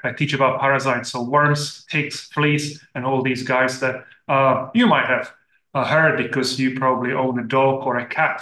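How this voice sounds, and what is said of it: European accent. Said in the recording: “I'm originally from Europe, as you probably hear from my accent”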